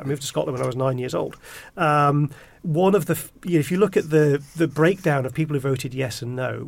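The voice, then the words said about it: English accent from down south. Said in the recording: “I've got this accent, because I was born down south”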